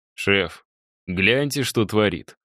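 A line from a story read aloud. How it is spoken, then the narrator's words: Snorting remark. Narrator (Russian): хмыкнул Мишаня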